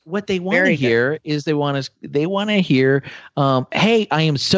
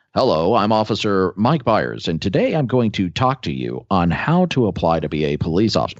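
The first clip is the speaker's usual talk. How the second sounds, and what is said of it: Formal radio announcer voice. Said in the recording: “He did that really well. ... he does have a good radio voice.”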